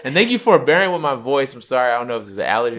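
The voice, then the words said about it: Deep, congested-sounding voice. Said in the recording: “You can hear it in my voice... I'm getting deeper. I'm getting that Barry White on.”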